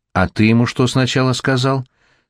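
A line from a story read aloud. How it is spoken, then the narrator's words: Calm question. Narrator (Russian): спокойно спросил дядя Сандро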